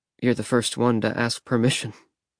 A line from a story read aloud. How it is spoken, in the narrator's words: I mumbled